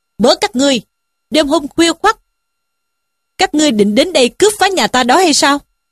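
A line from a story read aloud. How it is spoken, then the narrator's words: Shouted question. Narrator (Vietnamese): quát hỏi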